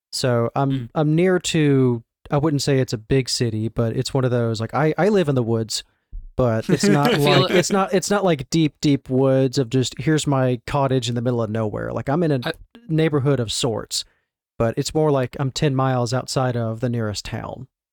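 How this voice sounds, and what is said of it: Southern US accent, Mississippi. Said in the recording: “You really were not kidding when you said you're in the South. ... this is me keeping the accent as like limited as possible. This is my speaking voice. ... If you want a true Southern accent, this is sometimes how I talk at work.”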